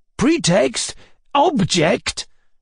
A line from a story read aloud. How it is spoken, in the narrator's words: cried the old man